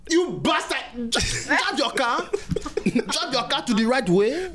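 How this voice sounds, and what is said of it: Put-on accent, angry cursing. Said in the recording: “when you pull an accent out ... Do you pull out the accent? Like, do you curse?”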